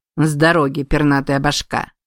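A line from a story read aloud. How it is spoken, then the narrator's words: Growled. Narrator (Russian): Тот зарычал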